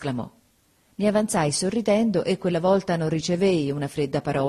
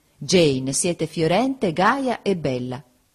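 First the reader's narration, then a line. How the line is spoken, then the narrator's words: Plain. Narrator (Italian): disse egli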